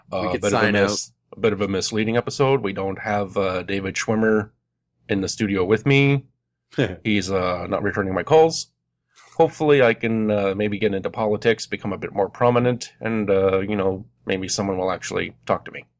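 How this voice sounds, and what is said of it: Bad Barack Obama impression. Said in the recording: “worst Obama impression”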